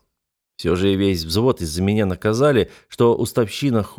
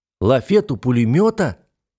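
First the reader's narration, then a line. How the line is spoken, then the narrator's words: Exclamation. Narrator (Russian): воскликнул я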